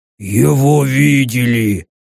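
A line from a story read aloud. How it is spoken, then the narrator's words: Grumbling. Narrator (Russian): проворчал Верг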